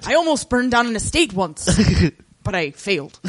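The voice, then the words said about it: Weak put-on Irish accent. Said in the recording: “Irish accent. I'm not good at it.”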